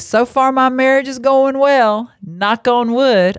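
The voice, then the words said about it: Put-on Southern American accent. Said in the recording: “I don't know why I'm giving a Southern voice to when I say that ... Let me do it in not a Southern voice.”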